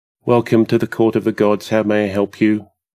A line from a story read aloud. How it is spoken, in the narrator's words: Gob said in a bored monotone